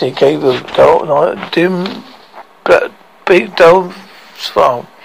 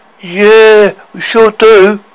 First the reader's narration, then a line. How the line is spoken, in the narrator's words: yelled Snuggly